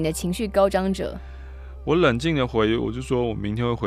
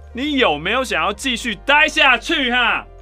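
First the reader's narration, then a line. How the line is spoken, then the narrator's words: Loud. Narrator (Chinese): 都很大声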